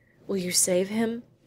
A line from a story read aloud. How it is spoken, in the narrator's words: she exclaimed